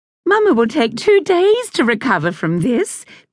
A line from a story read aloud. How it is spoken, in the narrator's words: Grace said cheerfully